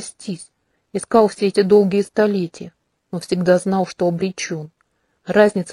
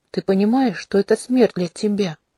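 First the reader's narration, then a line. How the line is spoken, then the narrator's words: Whisper. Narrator (Russian): прошептал князь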